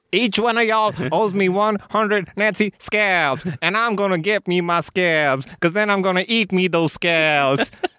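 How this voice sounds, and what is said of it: Aldo Raine Southern accent impression. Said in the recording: “he still has the same accent ... the character Aldo Raine, and particularly his accent, are wunderbar”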